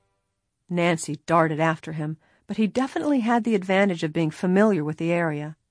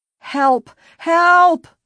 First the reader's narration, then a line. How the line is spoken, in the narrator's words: she screamed